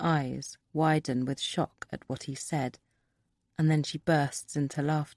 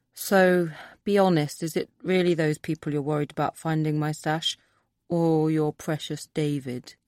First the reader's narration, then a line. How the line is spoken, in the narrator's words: sighs